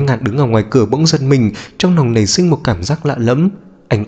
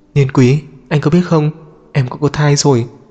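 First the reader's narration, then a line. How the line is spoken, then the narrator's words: Soft. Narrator (Vietnamese): mẹ khẽ nói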